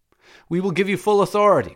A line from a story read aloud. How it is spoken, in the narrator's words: cried the chiefs of the Syssitia